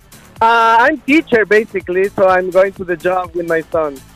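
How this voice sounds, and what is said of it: Spanish-speaking Latin American accent. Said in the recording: “It's some type of Spanish or Latino ... I'm from Ecuador.”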